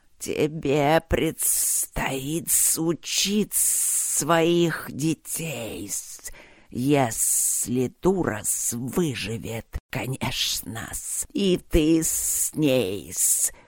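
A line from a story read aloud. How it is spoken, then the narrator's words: Hissed, instructive. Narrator (Russian): прошипел он наставительно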